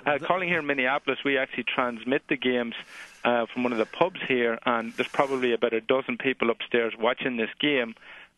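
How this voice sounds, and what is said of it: Irish accent. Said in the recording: “let me just deduce from your accent that you're Irish?”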